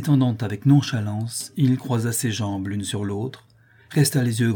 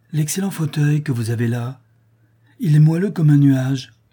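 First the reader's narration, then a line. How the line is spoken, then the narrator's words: Blissful exclamation. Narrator (French): s'écria-t-il avec un sourire de béatitude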